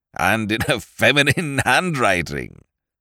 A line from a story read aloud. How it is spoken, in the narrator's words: he chuckled